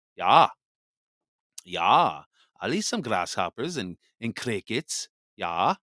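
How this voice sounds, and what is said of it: Poor imitated Klaus Schwab accent. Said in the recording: “Do I do a good accent? No. ... You suck at accents.”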